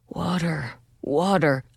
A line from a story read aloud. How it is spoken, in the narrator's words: a man mumbled